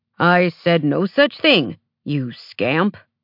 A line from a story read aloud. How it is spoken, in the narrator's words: Chris growled